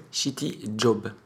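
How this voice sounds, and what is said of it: English accent. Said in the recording (French): “un merveilleux accent anglais”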